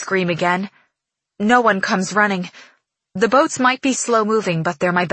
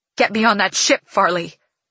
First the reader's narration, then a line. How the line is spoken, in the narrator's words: My voice shakes with anger